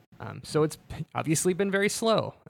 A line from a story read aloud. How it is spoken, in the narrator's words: he chuckles